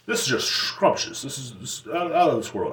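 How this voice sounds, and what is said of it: Clumsy put-on British accent. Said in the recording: “I don't know how to do a British accent, okay? Sue me.”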